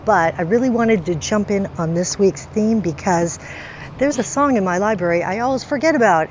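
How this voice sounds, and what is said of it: Voice affected by a cold. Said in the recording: “pardon my voice, I have a cold”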